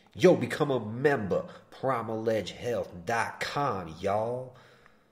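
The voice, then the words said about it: Put-on hood accent. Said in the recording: “When I do my promos, I do a fake accent to seem like I'm hood”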